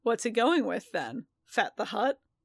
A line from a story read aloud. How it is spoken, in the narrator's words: Din chuckled